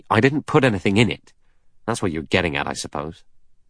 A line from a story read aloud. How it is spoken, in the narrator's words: Blore said angrily